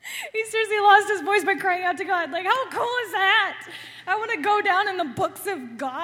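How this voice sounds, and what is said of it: Usual voice. Nothing is said of it.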